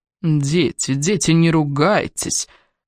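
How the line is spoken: Soft smug murmur. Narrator (Russian): Мягко прожурчал рядом самодовольный голос

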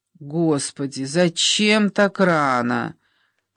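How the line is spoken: Sleepy groan. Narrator (Russian): простонала Ольга, привыкшая подниматься к 11 часам

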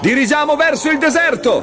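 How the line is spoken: Shouted. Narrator (Italian): gridò Leo

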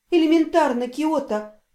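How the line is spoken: Tired inner-voice whisper. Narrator (Russian): устало шепнул внутренний голос

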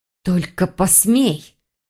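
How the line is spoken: Witch's threatening hiss. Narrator (Russian): зашипела ведьма

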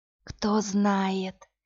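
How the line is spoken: Whisper. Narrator (Russian): прошептала Иви

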